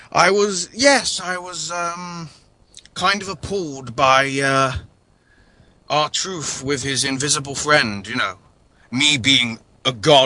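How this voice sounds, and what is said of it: Thor character with British accent. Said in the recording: “I'm supposed to be Norse, but I speak with a British accent.”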